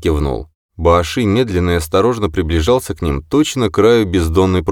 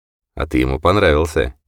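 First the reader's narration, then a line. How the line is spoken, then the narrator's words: Quiet. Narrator (Russian): тихо сказал Такер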